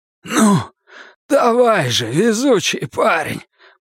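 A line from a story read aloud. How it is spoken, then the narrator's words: Hoarse. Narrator (Russian): прохрипел отец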